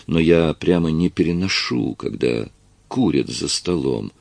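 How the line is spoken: Calm tone. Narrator (Russian): сказал Прат уже спокойным тоном

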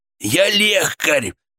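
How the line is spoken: Hoarse wheeze. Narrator (Russian): просипел

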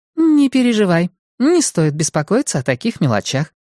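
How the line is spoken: Cheerful reassurance. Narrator (Russian): бодро заверила она

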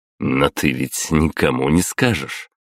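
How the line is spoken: Snorting smirk. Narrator (Russian): хмыкнул

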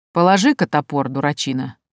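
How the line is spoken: Mocking. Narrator (Russian): насмешливо произнес один из них

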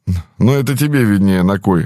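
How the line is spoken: Snorting. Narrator (Russian): хмыкнул Михалыч

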